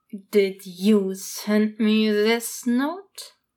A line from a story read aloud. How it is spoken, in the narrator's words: Zhong Chong asked through clenched teeth